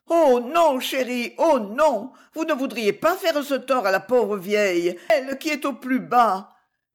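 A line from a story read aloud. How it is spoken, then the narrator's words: Pitiful moaning old woman. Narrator (French): gémit l'horrible mégère d'un air piteux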